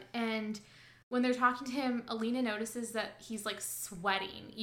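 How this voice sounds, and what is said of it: Usual voice. Nothing is said of it.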